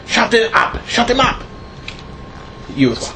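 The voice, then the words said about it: Thick hushed Prussian accent. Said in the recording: “in a thick, you know, but hushed Prussian accent ... a thick accent.”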